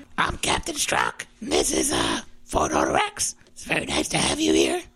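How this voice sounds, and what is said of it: Performed character voice. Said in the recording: “mentally preparing himself to do this voice... so that he could get into character”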